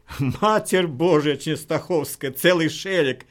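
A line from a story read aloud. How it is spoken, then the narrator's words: Laughing hard. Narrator (Russian): Пистолет затрясся в руке Краснолицева, так захохотал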